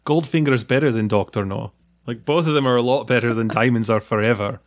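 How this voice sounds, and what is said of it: Imitates a Trainspotting character's accent. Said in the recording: “The accent ... my one-man show in which I play every part in Trainspotting”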